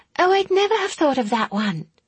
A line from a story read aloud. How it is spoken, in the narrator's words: Elspeth exclaimed